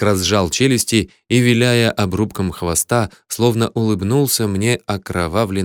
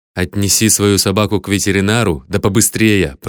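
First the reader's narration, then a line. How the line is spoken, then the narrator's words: Growl. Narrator (Russian): прорычал я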